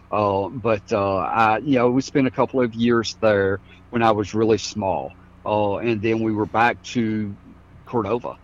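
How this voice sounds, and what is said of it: Southern Mississippi accent. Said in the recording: “we spent a couple of years in South Mississippi. That's where I learned to talk. So part of this accent comes from there.”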